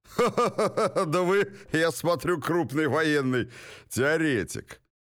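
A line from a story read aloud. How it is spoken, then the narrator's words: Guttural laughter. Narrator (Russian): Уоттон гортанно расхохотался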